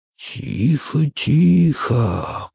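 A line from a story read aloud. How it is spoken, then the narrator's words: Soft singsong whisper. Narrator (Russian): приговаривал Линч тихим певучим шепотом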